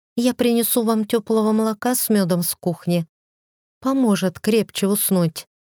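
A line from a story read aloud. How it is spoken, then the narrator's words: Timid offer. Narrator (Russian): Хельга робко предложила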